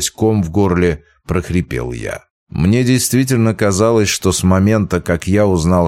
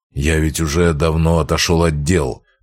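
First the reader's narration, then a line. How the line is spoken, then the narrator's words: Grumbling. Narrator (Russian): проворчал он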